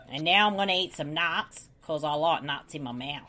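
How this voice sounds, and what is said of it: Poor American-Australian accent impression. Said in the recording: “worst Mel Gibson impression ever ... his accent's more Americanized now, so it's hard to do an American-Australian voice”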